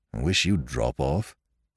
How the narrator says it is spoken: grumbled Parker

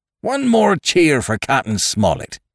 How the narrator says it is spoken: cried Long John

